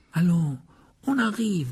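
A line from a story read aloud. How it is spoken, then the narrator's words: Coaxing tone. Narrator (French): dit Ron d'un ton cajoleur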